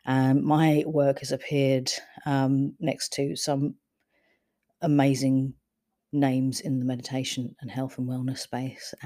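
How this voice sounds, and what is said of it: London accent. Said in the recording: “I'm originally from London, as you could probably tell from the accent”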